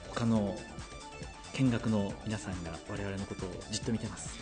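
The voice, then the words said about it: Speaking in hushed quiet voices. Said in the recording (Japanese): “小声で語り合ってますよ ... 我々が小声か”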